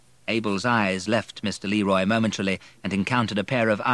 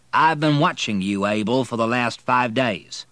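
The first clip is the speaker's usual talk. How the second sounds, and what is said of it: Character voice with Southern drawl. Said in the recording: “said a southern accent. ... Mr. Leroy was saying in his southern drawl.”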